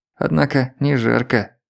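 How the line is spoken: Muttered. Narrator (Russian): пробормотал он

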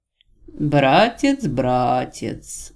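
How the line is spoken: Thoughtful drawl. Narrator (Russian): задумчиво протянул внутренний голос

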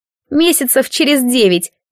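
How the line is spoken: Snide sly deity. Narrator (Russian): ехидно отозвалось лукавое божество

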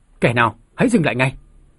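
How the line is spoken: Loud shout. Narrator (Vietnamese): Tôn Hào Nam hét lớn

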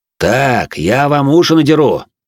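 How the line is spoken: Barked shout. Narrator (Russian): гаркнул на пацанов дворецкий

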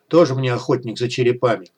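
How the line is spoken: Scoffing snort. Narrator (Russian): хмыкнул Вадим

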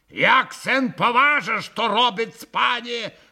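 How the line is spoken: Bark. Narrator (Russian): рявкнул на Колганова и пан Врублевский

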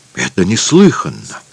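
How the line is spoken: Muttered evasively. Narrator (Russian): бормотал, не отвечая на вопрос

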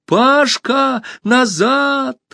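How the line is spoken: Urgent shout. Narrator (Russian): Алиса закричала

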